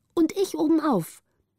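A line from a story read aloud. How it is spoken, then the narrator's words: Calling out. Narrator (German): rief Petrina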